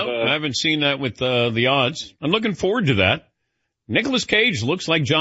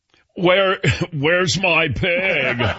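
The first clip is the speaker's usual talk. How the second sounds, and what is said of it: Imitates another person's voice. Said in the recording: “your impersonation with that pig movie ... It's very good. ... That's my Nicolas Cage impersonation.”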